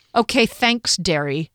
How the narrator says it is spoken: sneered

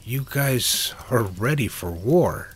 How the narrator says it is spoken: Liz exclaimed

